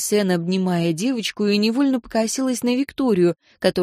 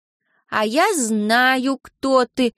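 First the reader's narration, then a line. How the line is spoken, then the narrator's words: Loud exclamation. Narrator (Russian): громко воскликнул Алекс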